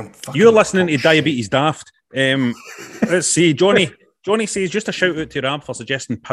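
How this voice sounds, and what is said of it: Usual voice. Nothing is said of it.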